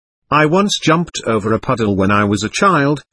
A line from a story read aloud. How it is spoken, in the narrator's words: said